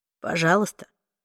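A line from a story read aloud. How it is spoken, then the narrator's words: Calm. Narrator (Russian): спокойно ответил Уилл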